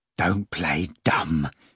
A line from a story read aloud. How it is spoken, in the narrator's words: Ivan said menacingly, even as he felt a chill in the pit of his stomach